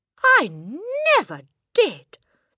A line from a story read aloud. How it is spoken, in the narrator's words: the boy exclaimed, turning from grey to white